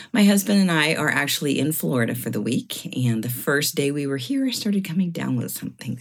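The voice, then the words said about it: Low, rough, sick-sounding voice. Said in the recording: “my voice is a little lower. I'm kind of coming off like I've got, like I'm a chain smoker, but I have been sick. I have the flu.”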